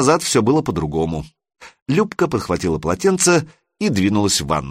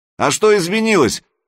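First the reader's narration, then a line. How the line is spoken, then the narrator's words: Calling out after someone. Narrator (Russian): крикнул Санек ей вслед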